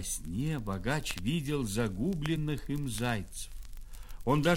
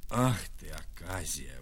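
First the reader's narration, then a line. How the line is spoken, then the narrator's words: Old man grumbling. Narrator (Russian): ворчал старик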